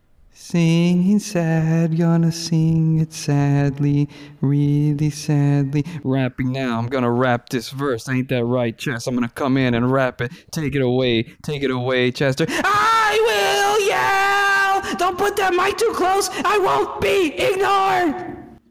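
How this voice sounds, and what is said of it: Imitates a rock band's singing and yelling. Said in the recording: “my Linkin Park impression ... my impression of a Linkin Park song ... That's my impression of a Linkin Park.”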